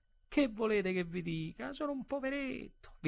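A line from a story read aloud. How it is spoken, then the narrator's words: Whimpering. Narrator (Italian): Piagnucolò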